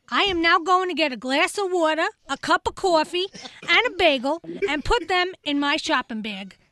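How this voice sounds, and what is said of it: Long Island accent. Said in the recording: “Long Island.”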